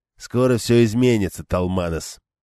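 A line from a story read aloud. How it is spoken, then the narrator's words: Growling toy. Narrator (Russian): прорычал игрушка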